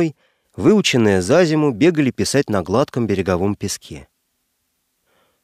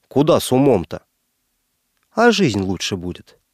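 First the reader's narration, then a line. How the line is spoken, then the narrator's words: Displeased tone. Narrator (Russian): таким недовольным тоном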